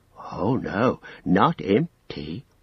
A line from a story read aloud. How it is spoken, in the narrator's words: whispered Gollum